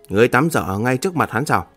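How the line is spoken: Cold, displeased. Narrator (Vietnamese): Gương mặt lập tức tối sầm lại, lạnh lùng nói

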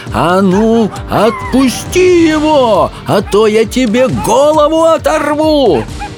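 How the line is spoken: Shouting while running. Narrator (Russian): Софи неслась следом и кричала

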